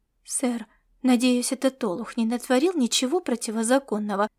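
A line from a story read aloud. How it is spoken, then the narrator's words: Fawning question. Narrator (Russian): вопросила она заискивающим тоном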